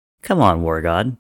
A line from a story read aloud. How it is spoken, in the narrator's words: he said